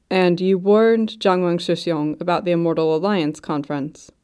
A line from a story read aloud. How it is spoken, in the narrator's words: Mu Qingfang asked